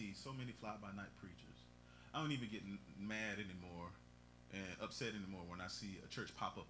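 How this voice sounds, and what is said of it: Usual voice. Nothing is said of it.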